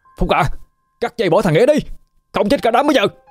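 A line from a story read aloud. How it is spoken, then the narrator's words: Panicked urgent shout. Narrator (Vietnamese): Hưng chợt nhận ra cái chốt cũng sắp bị bong ra rồi, liền hét lên bảo với Phúc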